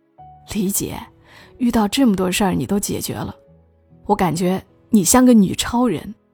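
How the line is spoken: Laughing. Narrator (Chinese): 小吕笑道

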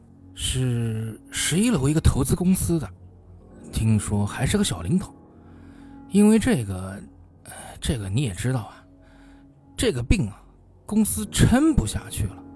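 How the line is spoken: Sighing, rambling on. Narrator (Chinese): 他叹了口气，絮道

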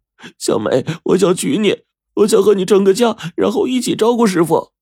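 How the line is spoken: Muffled sobbing. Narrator (Chinese): 扇子用手捂着脸，呜呜的哭道

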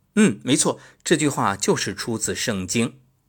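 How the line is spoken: Loud, addressing everyone. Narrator (Chinese): 朋友……高声对大家说

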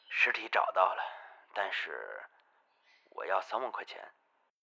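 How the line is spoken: Hoarse. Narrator (Chinese): 廖明雪 嘶哑着声音说道

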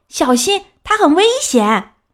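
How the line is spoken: Loud warning shout. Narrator (Chinese): 有人大声叫了起来

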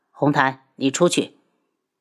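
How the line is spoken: Cold, angry. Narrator (Chinese): 心里就是一怒，冷声道

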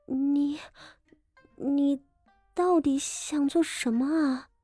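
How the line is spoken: Trembling question. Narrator (Chinese): 傅锦仪颤声问道

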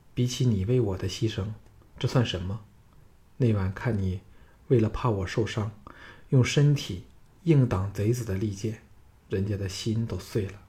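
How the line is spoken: Soft, tender. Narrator (Chinese): 赵倩柔声道

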